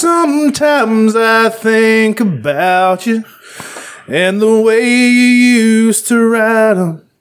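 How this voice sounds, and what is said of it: Sung impression with little yodel. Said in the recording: “I just did a really good impression of Dan Seals ... I just sounded really good. I even did the little yodel thing in my voice”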